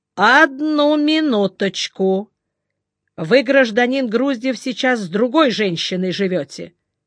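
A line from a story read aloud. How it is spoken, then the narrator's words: Drawn-out speech. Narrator (Russian): Жиглов в растяжку сказал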